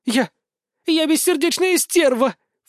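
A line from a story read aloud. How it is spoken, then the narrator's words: Sobbing, breathless. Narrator (Russian): Всхлипнув, выдохнула Пуся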